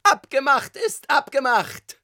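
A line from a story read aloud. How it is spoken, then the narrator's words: Familiar tenor shout. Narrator (German): schrie eine wohlbekannte Stimme, Tonlage Tenor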